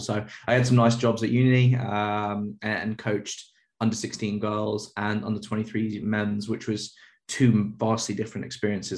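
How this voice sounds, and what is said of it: British accent. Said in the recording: “you got a British accent”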